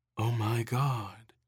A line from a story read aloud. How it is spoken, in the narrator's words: Erin said softly